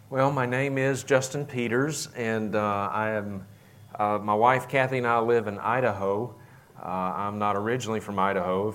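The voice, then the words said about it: Mild Southern US accent. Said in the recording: “I'm originally from Mississippi. And I try to mitigate my southern accent ... it still kind of seeps through from time to time.”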